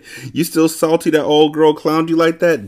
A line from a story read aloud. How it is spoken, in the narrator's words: James laughed